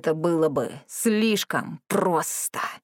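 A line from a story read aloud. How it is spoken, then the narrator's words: Hissed. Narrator (Russian): прошипел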